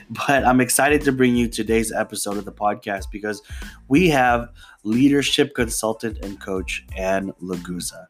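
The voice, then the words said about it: Voice sounds slightly off. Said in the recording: “I apologize if I sound a little bit off today ... it has been messing with my allergies ... if I sound a little weird.”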